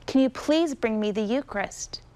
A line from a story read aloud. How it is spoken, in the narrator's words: Stanislaus begged